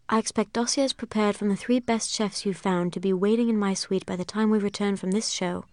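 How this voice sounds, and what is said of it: Inconsistent half-British put-on accent. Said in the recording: “you're doing like a little bit of an accent for Miranda, but it'd be great if you could either go in either direction, either British or not British. Seems like you're kind of caught in the middle”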